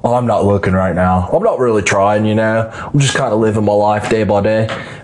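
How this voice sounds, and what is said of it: Put-on Australian accent. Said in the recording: “I don't know why I did an Australian accent”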